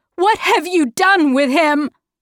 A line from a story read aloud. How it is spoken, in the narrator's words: Meg shouted